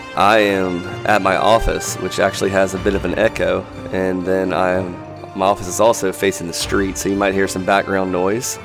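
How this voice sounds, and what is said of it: Congested voice from a cold. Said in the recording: “I don't know if you can tell, but I have a little bit of a cold.”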